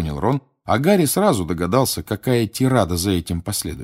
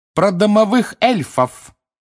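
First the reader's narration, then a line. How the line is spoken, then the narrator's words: Clear and loud. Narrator (Russian): отчетливо и громко произнесла Гермиона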